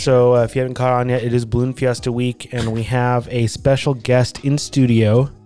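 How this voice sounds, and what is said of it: Hoarse, fading voice. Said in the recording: “my voice is kind of going. It's like the allergies, I think”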